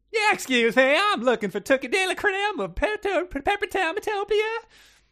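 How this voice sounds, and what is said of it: Made-up comic accent. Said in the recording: “She had a Bay Jingle accent. ... make up what a Bay Jingle accent is. ... I thought Bay Jangle, like if it's Northern California, you could get some like vocal fry going on, but that seemed a little too obvious.”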